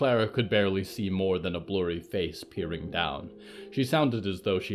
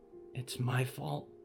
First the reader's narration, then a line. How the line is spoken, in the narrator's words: Friday whispered